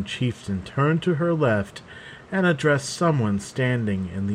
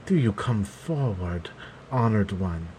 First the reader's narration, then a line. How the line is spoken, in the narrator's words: she said quietly